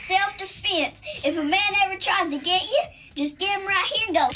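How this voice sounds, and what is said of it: Child with Southern accent. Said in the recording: “With a Southern accent ... kids with tasers and Southern accents”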